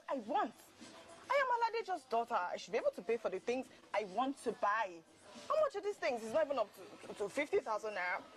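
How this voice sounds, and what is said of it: Loud angry shouting. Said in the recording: “I love your shouting ... I am shouting ... Just put your voice down.”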